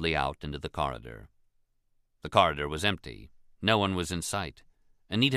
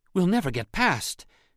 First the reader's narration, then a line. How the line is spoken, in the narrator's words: Anita gasped